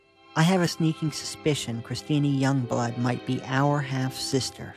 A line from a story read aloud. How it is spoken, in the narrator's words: she said